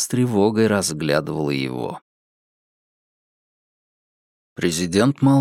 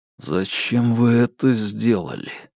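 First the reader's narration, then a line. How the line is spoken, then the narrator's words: Muffled question after pause. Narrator (Russian): глухо спросил Соколов после продолжительной паузы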